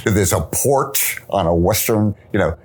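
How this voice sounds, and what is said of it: Thick Brooklyn accent, exaggerated R's. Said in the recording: “a thick Brooklyn accent, overly accentuating his R's”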